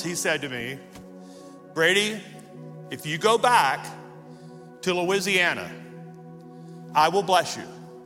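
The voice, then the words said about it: Calmer, softer voice. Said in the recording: “In a calmer voice,”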